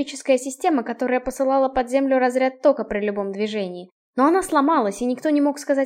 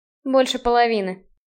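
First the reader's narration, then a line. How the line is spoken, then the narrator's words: Gloomy admission. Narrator (Russian): мрачно признал Блейн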